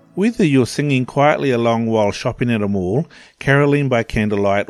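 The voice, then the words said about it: New Zealand accent. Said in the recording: “who has a beautiful Kiwi accent because, of course, he's from New Zealand”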